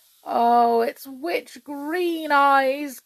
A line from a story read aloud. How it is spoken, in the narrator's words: groaned the king